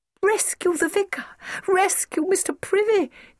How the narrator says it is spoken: cried the brown children, delighted at the idea

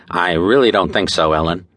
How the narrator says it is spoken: he interrupted quickly

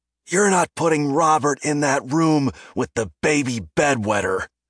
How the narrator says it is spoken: His dad yelled

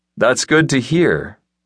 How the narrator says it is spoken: Roberts replied, his voice far too level for the stunt he'd just pulled on his crew and fighters

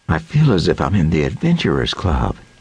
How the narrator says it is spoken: breathed with a faint smile

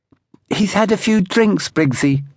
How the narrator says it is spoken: put in Villiers with his lisp

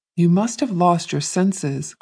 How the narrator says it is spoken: cried the mother

